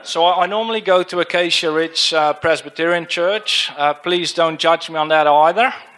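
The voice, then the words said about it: Dutch accent. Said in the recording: “sort of my accent is Dutch, so please try and tune in”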